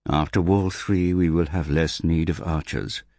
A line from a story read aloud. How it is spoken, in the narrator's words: said Hogan calmly